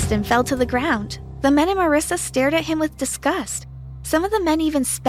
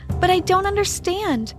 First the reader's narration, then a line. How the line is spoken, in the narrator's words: cried